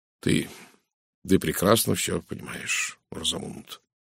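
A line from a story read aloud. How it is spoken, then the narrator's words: Quiet voice. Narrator (Russian): тихо промолвил он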